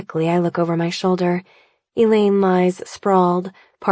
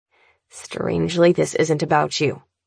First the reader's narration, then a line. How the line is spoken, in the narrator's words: my brother replies, his voice sharp and dry